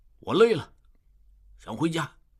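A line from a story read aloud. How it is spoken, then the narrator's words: Low voice. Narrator (Chinese): 智庸低声说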